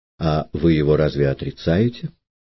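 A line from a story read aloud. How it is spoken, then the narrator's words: Plain. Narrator (Russian): спросил Ромеев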